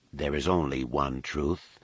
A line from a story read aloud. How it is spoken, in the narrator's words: said calmly